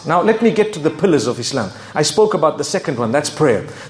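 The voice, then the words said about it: Zimbabwean English accent. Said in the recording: “I come from Zimbabwe. You can hear my accent, right?”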